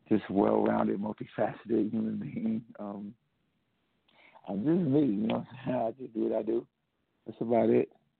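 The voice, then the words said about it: Deep voice, slight Southern accent. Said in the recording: “You ain't got to come in here like Barry White ... You got that deep voice. ... with that Southern swing. You got a little Southern swing to it.”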